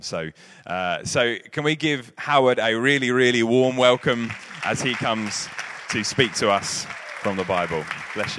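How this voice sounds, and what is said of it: London accent. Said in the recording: “a lovely London accent of”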